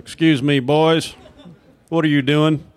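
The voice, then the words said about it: Scolding Texas accent. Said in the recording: “every adult authority figure that was scolding you had a Texas accent”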